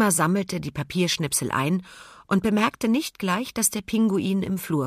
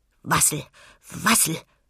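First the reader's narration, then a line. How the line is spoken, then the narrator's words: Busy muttering. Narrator (German): murmelte er geschäftig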